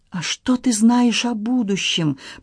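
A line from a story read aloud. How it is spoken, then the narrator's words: Frightened small-voiced moan. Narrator (Russian): простонал испуганный голосок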